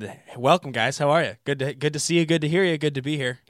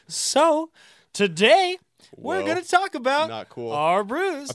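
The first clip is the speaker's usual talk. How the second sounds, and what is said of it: Imitates another person's voice. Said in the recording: “my Alex Kessler impression”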